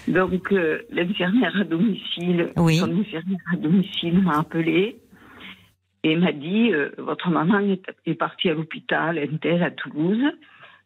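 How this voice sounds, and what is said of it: Toulouse accent, clearly detached syllables. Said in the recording (French): “à votre accent ... avec bien les, syllabes bien détachées, ça, je connais ce petit accent”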